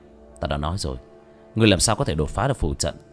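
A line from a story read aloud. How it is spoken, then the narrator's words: Muttering. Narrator (Vietnamese): lẩm bẩm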